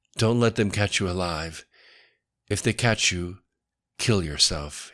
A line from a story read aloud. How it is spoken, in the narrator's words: said quietly